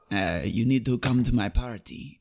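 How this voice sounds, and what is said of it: Poor put-on Spanish accent. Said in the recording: “older Spanish guy ... that's a terrible accent”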